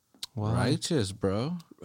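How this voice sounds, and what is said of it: Put-on SoCal surfer accent. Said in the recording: “they speak like surfers... they just talk really fucking like they're really doped up... Valley Girls... It's that SoCal accent.”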